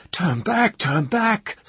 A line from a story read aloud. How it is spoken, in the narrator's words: Sopley was shouting